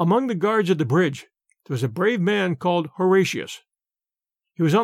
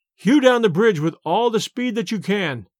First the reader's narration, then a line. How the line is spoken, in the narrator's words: cried